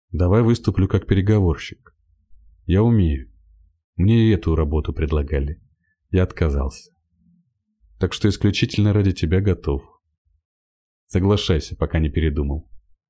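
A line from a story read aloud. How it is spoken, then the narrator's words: Plain. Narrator (Russian): сказал Самобытов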